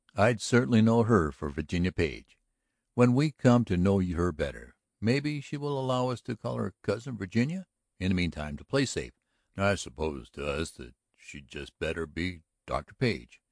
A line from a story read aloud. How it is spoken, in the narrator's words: chuckled